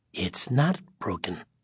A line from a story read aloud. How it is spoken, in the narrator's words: the tall, dark figure said softly